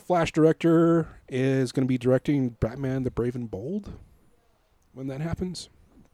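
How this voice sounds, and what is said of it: Strained, fading voice. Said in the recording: “I'm losing my voice here. ... It's probably all this talking.”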